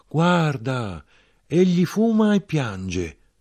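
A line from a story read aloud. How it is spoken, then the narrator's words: Children exclaiming. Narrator (Italian): i fanciulli esclamarono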